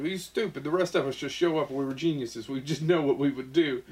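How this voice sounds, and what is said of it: Poor put-on Hungarian accent. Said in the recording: “That's a terrible Hungarian accent.”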